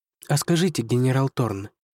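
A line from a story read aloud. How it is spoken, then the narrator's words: Timid start. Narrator (Russian): робко начала она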